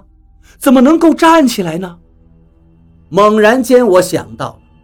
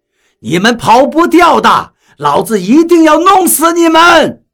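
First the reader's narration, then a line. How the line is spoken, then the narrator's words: Loud threatening yell. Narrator (Chinese): 大声的叫嚷道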